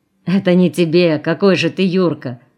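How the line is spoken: Laughing into phone. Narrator (Russian): Засмеялся в телефон

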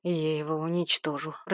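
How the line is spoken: Growling. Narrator (Russian): прорычал я

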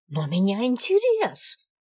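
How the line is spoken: Young woman exclaiming. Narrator (Russian): воскликнула девица

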